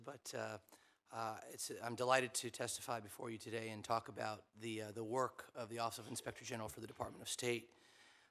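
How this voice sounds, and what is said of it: Voice sounds impaired or unwell. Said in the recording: “I apologize for my voice”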